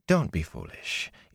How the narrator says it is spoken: Ila said soothingly

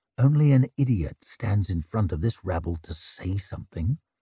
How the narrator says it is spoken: muttered Leo

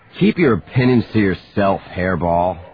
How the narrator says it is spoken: he snarled

